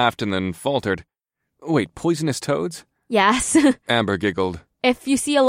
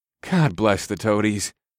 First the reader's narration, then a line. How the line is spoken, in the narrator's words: I sighed